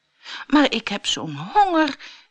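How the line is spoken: Pleading. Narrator (Dutch): smeekte Jaap

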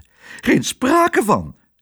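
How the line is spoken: Shrill cry. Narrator (Dutch): riep ze schril

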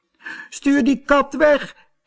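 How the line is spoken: Shrieking. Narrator (Dutch): gilde ze

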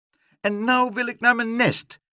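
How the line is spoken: Shrieking. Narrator (Dutch): krijste Leentje

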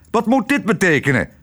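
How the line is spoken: Calling out. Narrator (Dutch): riep

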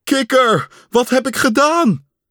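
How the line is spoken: Calling out. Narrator (Dutch): riep Pat

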